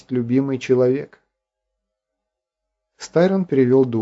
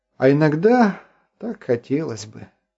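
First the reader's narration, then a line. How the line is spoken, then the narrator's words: Sighing. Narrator (Russian): вздохнул Артур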